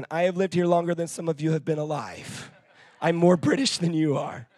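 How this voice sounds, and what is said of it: American accent. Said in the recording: “I'm originally from Florida ... So don't go judging me based on my accent.”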